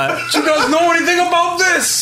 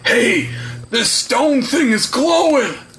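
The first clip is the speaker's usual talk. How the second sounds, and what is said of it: Guard character voice. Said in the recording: “my best guard impression”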